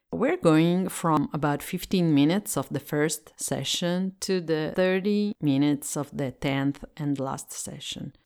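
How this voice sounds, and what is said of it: Italian accent in English. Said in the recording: “I'm Italian and I speak English as a second language, so if my accent”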